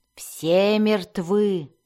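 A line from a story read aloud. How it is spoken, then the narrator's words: Spiteful, malicious. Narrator (Russian): злобно повторил он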